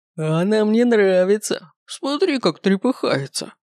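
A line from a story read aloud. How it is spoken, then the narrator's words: Man guffawing, shaking with laughter. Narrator (Russian): Заржал мужик и буквально затрясся от хохота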